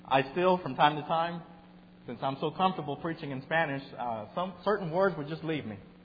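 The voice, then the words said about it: Texas Spanish-accented English. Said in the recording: “preaching in English with a Texas Spanish twang in my accent”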